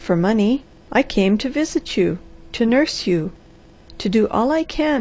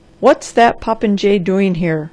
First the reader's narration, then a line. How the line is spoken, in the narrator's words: thundered Dr